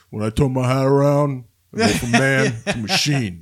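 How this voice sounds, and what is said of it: Imitates another person's voice. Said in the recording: “That was a good impression there, buddy.”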